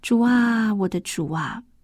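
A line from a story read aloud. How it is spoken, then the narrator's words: Surprised question. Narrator (Chinese): 医生讶异的问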